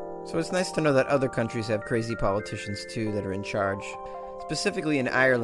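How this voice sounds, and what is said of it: Usual voice. Nothing is said of it.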